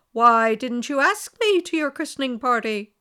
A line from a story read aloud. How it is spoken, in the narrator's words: cried with one voice